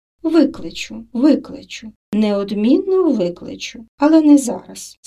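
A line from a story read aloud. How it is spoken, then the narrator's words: Calm reply. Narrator (Ukrainian): спокійно відповіла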